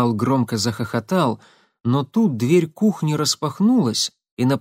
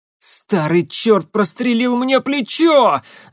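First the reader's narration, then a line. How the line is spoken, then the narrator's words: Yelling. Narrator (Russian): заорал Марат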